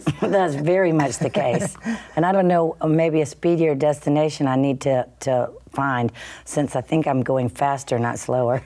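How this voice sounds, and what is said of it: Southern American accent. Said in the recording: “you have the Southern accent, but you're wired like a New Yorker”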